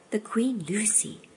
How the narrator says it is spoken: whispered Duffel

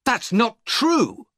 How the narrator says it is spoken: I cried

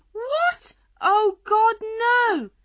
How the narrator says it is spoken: She screamed

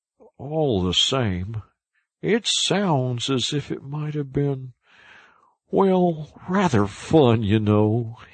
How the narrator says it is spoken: he added wistfully

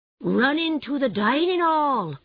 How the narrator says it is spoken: cried the Mole

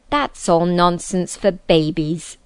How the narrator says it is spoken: said the king sternly

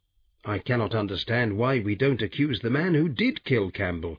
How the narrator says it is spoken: replied sharply

